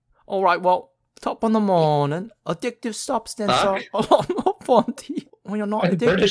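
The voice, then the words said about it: Failed attempt at Australian accent. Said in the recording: “Natalie Tran impersonation? ... I can't do an Australian accent.”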